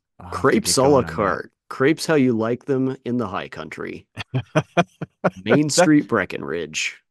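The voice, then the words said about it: Polished professional radio announcer voice. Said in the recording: “That just sounds professional. Like you've been practicing that ... it's my radio voice.”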